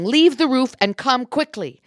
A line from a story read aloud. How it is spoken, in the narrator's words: shouting